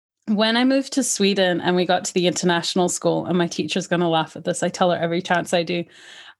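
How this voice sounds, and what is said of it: Light partial Scottish accent. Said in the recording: “you have got a bit of a Scottish accent, but not a full one”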